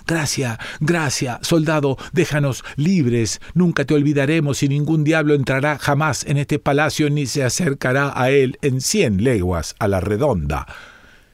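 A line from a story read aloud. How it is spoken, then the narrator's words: Terrified screaming in pain. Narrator (Spanish): Los diablos, no pudiendo soportar el dolor, llenos de espanto, gritaron con todas sus fuerzas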